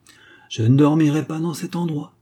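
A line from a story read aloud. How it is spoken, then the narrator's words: Exclaimed. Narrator (French): s'exclama-t-il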